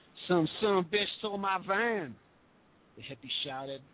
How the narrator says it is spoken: his Mississippi drawl barely audible over the sirens

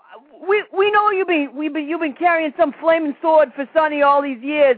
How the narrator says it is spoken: he yelled out

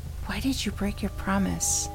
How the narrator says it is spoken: She whispered

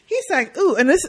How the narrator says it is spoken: I laughed on this one

